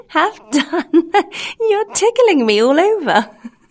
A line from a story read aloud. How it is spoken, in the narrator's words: the same little voice say, laughing